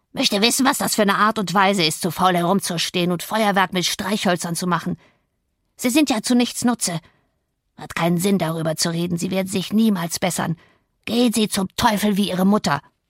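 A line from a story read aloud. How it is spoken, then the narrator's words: Croaking. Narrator (German): krächzte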